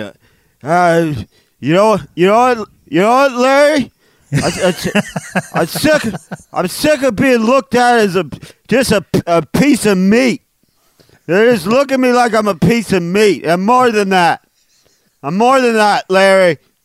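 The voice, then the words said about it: Drunk cow character voice. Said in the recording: “best cow impression ... Is that a good drunk cow? ... is there a drunk cow in this room with me?”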